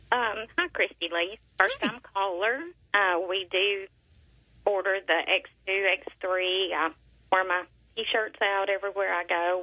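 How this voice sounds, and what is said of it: Sweet small voice, Southern accent. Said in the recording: “You have the sweetest little voice and accent ... I'm so Southern.”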